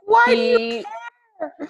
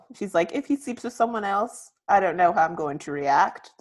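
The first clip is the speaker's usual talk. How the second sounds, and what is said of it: Poor New Zealand/Australian accent. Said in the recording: “That's my New Zealand / Australian accent, by the way. ... That was poor.”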